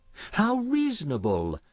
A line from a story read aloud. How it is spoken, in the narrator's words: exclaimed Florence